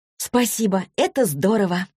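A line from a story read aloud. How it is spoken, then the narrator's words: Exclaiming. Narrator (Russian): воскликнула Василиса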